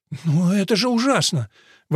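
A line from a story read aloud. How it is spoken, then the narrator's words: Exclaiming. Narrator (Russian): воскликнула Керрис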